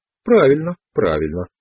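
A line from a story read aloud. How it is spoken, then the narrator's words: Calm voice. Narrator (Russian): сказал он спокойным голосом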